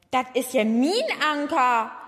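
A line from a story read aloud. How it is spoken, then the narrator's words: Surprised exclamation. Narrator (German): rief Herr Fischer überrascht aus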